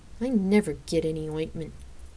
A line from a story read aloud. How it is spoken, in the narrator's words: I grumbled under my breath